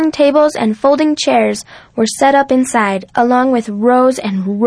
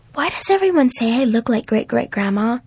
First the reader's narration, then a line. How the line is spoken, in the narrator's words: she whispered